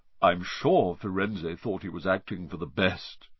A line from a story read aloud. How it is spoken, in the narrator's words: he said in his gloomy voice